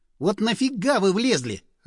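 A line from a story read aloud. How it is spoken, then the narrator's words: Snapped. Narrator (Russian): огрызнулся я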